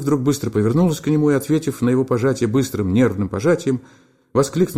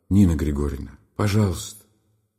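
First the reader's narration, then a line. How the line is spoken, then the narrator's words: Whispered. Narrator (Russian): прошептал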